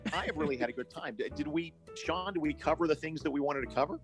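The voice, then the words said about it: Worn-out, strained voice. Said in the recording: “my voice is about shot, and I've been doing podcast all day”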